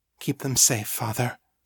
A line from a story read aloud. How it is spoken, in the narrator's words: she murmured